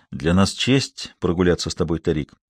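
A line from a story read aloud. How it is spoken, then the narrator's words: Gentle reply. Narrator (Russian): мягко ответил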